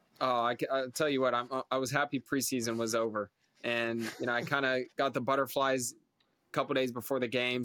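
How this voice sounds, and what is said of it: American accent. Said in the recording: “a proper American voice ... an American accent”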